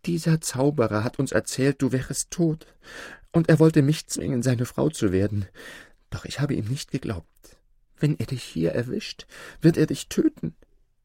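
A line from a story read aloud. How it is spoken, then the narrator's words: Sobbing. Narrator (German): schluchzte sie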